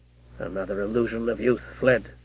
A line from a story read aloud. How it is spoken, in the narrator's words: he said to himself sadly